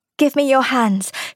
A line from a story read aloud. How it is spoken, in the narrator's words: she said to Ruth shakily